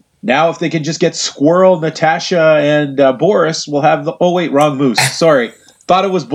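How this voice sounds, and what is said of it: Usual voice. Nothing is said of it.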